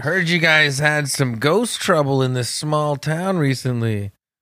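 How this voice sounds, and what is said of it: Imitates another person's voice. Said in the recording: “That was a good impression of his voice. ... that good, Dan Aykroyd?”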